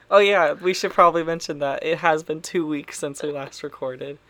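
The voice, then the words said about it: Weird-sounding voice from illness. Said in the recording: “my voice sounds weird ... I've been quite ill ... I'm still recovering”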